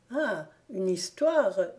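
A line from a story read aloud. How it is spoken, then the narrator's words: Exclaimed. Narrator (French): s'écria Gone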